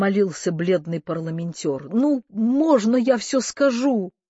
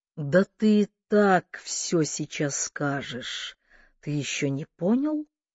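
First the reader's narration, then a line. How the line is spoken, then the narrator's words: Quiet question. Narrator (Russian): тихо спросил Кордовин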